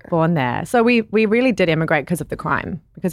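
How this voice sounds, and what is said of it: Unique, beautiful foreign accent. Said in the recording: “accent is so unique. It's one of the most beautiful accents”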